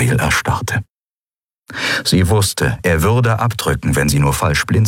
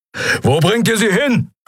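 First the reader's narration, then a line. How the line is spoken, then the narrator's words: Roaring. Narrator (German): brüllte Keru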